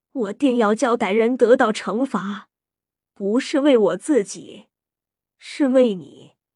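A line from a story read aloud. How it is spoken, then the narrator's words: Sighing. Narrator (Chinese): 他叹道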